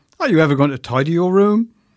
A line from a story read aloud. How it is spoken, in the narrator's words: She barked at me